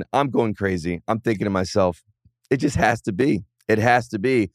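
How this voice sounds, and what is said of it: Hoarse, strained voice. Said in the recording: “As you can probably tell by listening to me right now, I'm losing my voice ... I'm yelling.”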